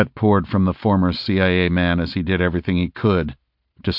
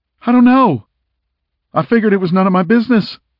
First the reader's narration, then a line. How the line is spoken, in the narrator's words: Landry squeaked